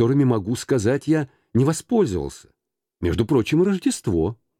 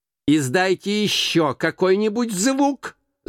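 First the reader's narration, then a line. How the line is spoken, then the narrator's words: Shout. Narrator (Russian): закричал Скрудж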